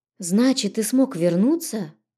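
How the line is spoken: Breathless exhale. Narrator (Russian): выдохнула я

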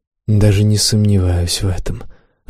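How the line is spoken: Sigh. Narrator (Russian): вздохнула Флоренс

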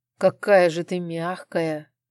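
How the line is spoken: Moan. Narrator (Russian): простонал мужчина

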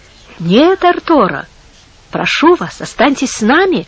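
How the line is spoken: Friendly tone. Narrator (Russian): сказал ему дружеским тоном Антонио

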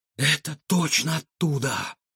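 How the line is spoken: Breathless exhale. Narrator (Russian): выдохнул Егор

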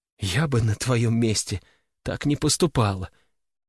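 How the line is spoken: Wife's trembling voice. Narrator (Russian): дрожащим голосом продолжила супруга

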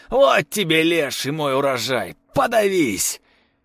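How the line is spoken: Shouting. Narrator (Russian): прокричал

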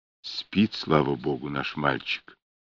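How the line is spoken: Whisper. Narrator (Russian): прошептал он

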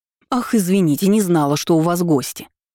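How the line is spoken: Angry retort. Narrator (Russian): сердито парировала я

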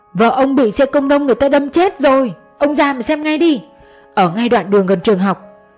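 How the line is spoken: Woman screaming loudly. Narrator (Vietnamese): Người đàn bà hét lớn nhất mức có thể

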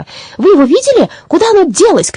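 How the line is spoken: Several people shouting. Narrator (Russian): кричали одни

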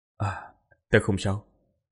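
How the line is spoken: Sighing, composed. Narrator (Vietnamese): Quỷ Lệ trầm mặt, thở dài, trấn định tâm thần, lập tức nói

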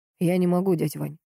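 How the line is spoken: Flat lifeless voice. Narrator (Russian): тусклым голосом сказал он

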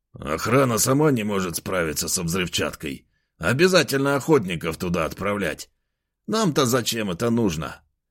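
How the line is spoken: Displeased grumble. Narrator (Russian): недовольно пробурчал Федор

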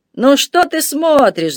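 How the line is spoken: Laughing. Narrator (Russian): засмеялся он

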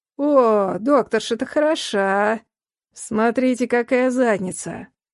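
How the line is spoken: Hoarse voice from behind. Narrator (Russian): Раздался сиплый голос из-за спины

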